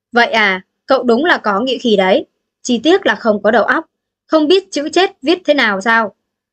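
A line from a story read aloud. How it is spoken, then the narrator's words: Cold mocking laugh. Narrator (Vietnamese): Đạo chủ lạnh lùng bật cười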